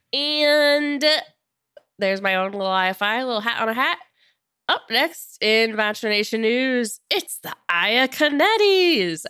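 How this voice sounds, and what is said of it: Sick-sounding voice. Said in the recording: “I also apologize for my voice in this episode. I'm a little sick.”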